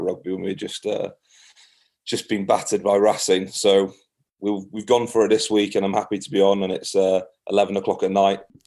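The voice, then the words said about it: Strong Scottish-sounding accent. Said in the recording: “I, I, just, I actually can't understand what you're saying. But That Scottish accent is coming through like you wouldn't believe.”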